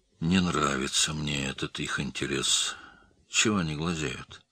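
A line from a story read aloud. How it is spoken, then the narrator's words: Quiet. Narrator (Russian): Рустам тихо сказал Матюшевскому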